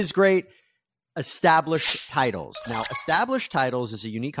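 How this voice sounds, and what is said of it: Usual voice. Nothing is said of it.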